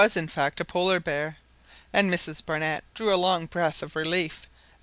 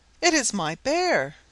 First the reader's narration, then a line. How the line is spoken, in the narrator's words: she exclaimed